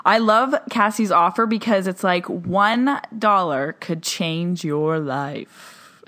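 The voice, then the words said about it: Sexy radio announcer voice. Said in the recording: “Was it my sexy radio voice?”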